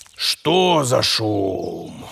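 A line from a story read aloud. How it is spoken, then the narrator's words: Displeased, angry growl. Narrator (Russian): Недовольно проворчал злой и голодный волк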